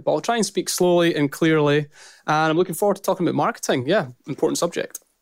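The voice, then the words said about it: Strong Scottish accent. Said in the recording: “my strong Scottish accent”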